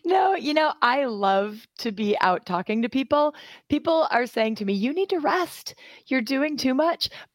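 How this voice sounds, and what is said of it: Hoarse, laryngitic voice. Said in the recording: “I have a little touch of the laryngitis from all the talking that I've been doing.”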